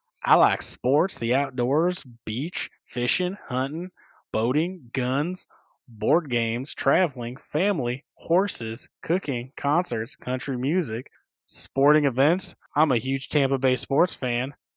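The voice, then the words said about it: Put-on Southern American accent. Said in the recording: “I'm going to give it a Southern accent anyway”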